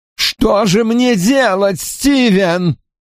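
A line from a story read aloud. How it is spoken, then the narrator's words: Moaning. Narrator (Russian): стонал джентльмен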